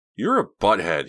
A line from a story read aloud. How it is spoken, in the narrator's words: he said angrily